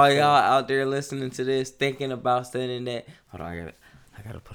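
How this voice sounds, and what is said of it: Usual voice. Nothing is said of it.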